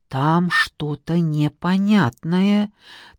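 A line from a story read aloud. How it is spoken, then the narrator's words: Whispered reply. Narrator (Russian): также шепотом ответила Анна Васильевна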